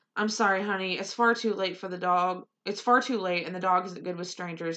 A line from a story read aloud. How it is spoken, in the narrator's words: said quickly